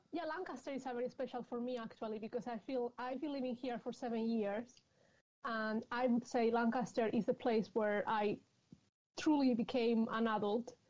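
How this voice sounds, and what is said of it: Spanish accent. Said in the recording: “you can tell possibly because of my accent, I'm from, from Madrid ... in Spain”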